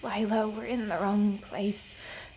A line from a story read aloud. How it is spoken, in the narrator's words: Remus muttered, but he stumbled over the words